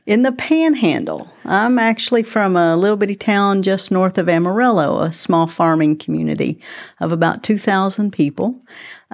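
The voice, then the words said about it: Texan accent. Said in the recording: “I'm loving your accent. ... Are you a native Texan?”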